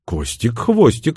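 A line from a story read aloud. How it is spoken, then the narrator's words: Chuckling. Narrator (Russian): хохотнул я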